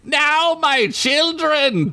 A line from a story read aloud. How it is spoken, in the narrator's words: Dant shouted